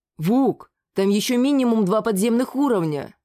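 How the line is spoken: Admiring exclamation. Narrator (Russian): восхищенно воскликнул один из игроков архов

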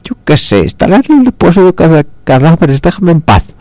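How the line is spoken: Terrified shout. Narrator (Spanish): gritó tratando de controlar el terror que le dominaba

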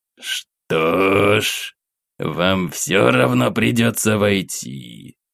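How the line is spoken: Uneasy hiss, old abbot. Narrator (Russian): прошипел настоятель, ощущая, как по спине пробежал холодок

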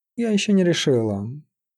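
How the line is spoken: Sleepy reply. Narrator (Russian): сонно ответила Любава

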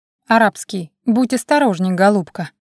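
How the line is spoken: Stern but calm. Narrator (Russian): ответил он строго, но спокойно

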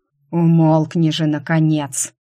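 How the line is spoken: Menacing hiss. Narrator (Russian): Угрожающе прошипел тот

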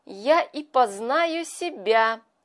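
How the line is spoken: Happy, pleased. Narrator (Russian): сказал он, радостно потирая руки

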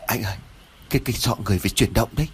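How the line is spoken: Trembling, stammering. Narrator (Vietnamese): Lễ run rẩy ấp úng nói

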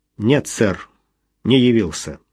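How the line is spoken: Gloomy reply. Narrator (Russian): мрачно ответил Том Армур

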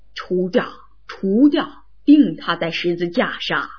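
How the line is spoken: Crowd shouting. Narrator (Chinese): 他们就喊叫说

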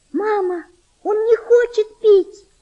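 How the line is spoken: Girl's desperate scream. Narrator (Russian): с отчаянием закричала девочка

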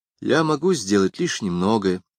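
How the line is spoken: Sad. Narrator (Russian): сказал он печально

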